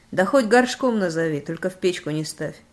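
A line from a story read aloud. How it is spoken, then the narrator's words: Laughing. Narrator (Russian): засмеялся Миха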